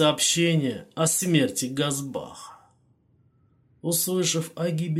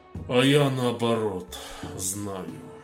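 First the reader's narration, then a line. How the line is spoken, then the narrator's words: Sad sigh. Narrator (Russian): печально вздохнул Минди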